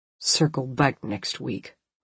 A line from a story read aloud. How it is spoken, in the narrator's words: under his breath, perhaps not consciously